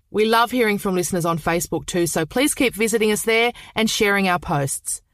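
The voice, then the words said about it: Australian accent. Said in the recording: “Australian true crime ... I hope you can understand our accents.”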